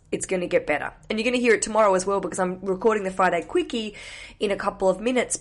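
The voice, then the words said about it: Weird, sick-sounding voice. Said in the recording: “I'm going to give you a cold ... I apologize for my weird voice.”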